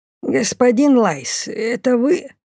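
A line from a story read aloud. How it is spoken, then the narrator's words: Creaky voice. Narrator (Russian): проскрипел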